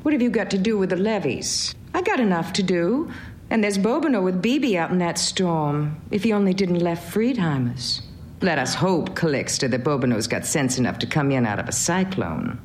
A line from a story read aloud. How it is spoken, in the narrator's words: She exclaimed